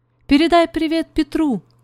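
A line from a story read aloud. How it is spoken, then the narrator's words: Shouted. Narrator (Russian): крикнула она Зузи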